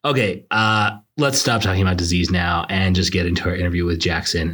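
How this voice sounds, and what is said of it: Slightly raspy voice. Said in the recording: “I had completely lost my voice ... I'm still a little bit raspy ... if you're detecting a little more sex appeal in my voice today”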